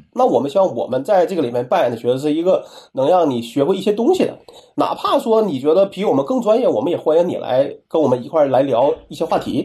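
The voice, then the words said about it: Speaker's own noticeable accent. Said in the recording (Chinese): “在所有的评论里边，我最受不了的就是说我这个口音啊 ... 我就哪怕说我有口，我有口音，那这是可能也是不好改变的事情”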